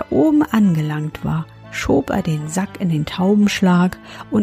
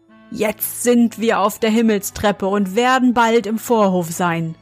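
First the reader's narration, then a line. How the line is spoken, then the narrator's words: Called out. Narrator (German): rief er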